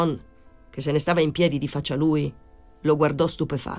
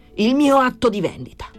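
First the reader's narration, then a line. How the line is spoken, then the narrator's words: Shouted. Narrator (Italian): urlò Torrelli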